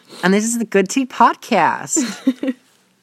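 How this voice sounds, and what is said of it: Put-on American accent. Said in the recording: “Did you like my American accent?”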